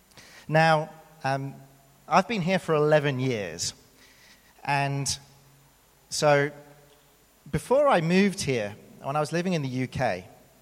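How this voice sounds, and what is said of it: British accent. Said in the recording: “as you can tell from my accent, I am indeed British”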